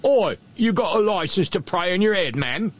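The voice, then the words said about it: Put-on British accent. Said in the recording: “There, got my accent back.”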